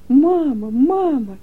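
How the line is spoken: Shouting. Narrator (Russian): Леночка закричала

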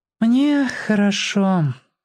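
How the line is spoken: Quick agreement, girl. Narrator (Russian): сразу согласилась девочка

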